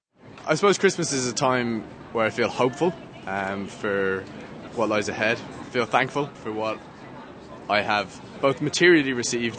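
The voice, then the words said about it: Irish accent. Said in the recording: “I'm from Ireland, as you can probably tell from the accent”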